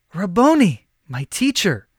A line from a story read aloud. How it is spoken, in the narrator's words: Mary exclaimed